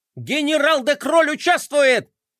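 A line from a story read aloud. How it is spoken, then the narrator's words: Hysterical scream. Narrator (Russian): истерично завопил Мелкотрон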